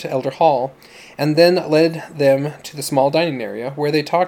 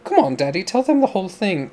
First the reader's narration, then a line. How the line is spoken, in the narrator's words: Dawn urged, her voice childlike